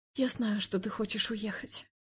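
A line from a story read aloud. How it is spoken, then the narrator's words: Whispered. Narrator (Russian): прошептала я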